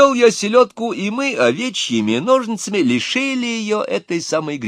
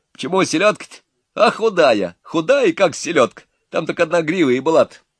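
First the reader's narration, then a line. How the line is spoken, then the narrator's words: Laughing. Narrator (Russian): Засмеялись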